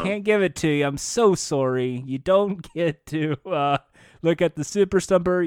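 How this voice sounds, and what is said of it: Canadian accent. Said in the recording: “You're saying sorry with the Canadian accent.”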